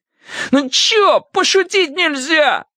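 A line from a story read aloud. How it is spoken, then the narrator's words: Howled. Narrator (Russian): взвыл Скуластый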